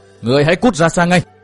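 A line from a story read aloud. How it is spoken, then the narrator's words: Loud shout. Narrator (Vietnamese): Ban Tử đã quát to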